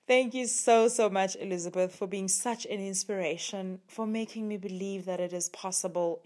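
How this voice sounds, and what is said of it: Distinct, appealing accent. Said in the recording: “isn't her accent like your favorite thing ever? ... I love her accent so much”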